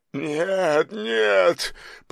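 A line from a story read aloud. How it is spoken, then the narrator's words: Almost sobbing. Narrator (Russian): почти зарыдал он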